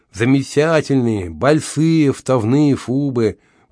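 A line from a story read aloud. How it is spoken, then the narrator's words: Lisping. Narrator (Russian): прошепелявила она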